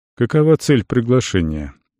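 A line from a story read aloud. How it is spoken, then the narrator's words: Neutral tone. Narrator (Russian): нейтральным тоном осведомился Тибор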